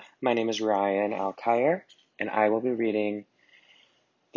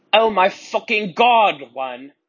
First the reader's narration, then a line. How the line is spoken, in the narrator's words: I shouted sadly